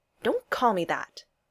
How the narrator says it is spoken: she snapped, angry at having been caught out

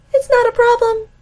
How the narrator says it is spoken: he says, even though his voice jumps a couple octaves

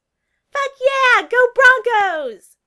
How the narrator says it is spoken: Lydia screamed

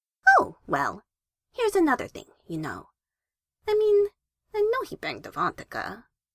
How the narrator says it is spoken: forced positivity through her veins, until she could say cheerfully, easily

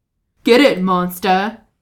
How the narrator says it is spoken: Grog says, taking his own and bellowing

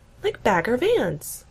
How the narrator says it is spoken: Gina gasps

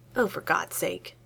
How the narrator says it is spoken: he mutters

